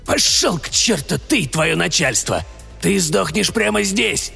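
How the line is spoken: Angry hiss. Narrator (Russian): злобно прошипел он

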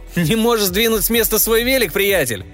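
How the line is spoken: Shouted. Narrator (Russian): крикнул ему кто-то

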